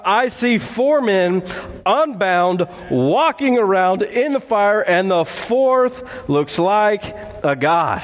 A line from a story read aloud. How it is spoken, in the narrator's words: Nebuchadnezzar shouted